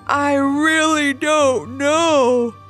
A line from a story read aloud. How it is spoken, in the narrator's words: said Levi with a big yawn